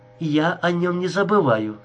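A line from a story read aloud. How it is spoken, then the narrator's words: Plain. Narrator (Russian): сказала она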